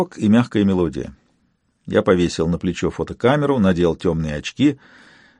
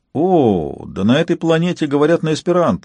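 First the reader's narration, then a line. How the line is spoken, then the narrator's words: Exclamation. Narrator (Russian): воскликнул я на том же языке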